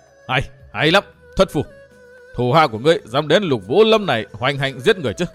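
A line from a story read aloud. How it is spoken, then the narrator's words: Loud, eerie laughing voice. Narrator (Vietnamese): Nghe tiếng rú, Lục Vũ lệnh chủ bà bật cười to với giọng rùng rợn vô tưởng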